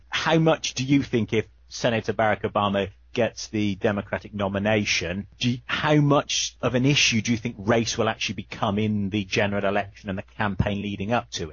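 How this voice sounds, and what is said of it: Non-North American accent. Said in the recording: “you can tell from the accent that I sit outside of North America”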